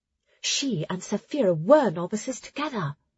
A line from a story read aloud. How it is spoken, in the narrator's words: Ara leaned in to whisper